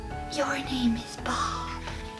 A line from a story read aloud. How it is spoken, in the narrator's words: smiling, he whispered